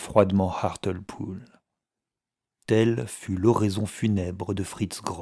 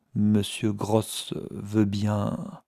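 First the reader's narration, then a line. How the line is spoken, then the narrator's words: Stammering. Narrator (French): balbutia Sand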